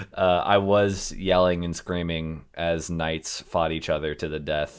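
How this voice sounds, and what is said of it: Gravelly, hoarse voice. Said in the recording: “That's of why I sound a little gravelly right now ... You sound a little hoarse”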